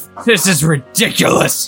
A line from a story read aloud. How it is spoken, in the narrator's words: he snarled